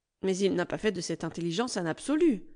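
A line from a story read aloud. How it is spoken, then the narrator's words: Curt retort. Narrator (French): répliqua assez sèchement Alice Bernard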